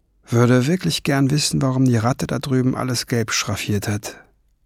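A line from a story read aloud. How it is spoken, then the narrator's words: Murmured. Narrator (German): murmelte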